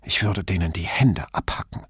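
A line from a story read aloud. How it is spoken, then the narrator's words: Angry hiss. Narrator (German): Sie zischte wütend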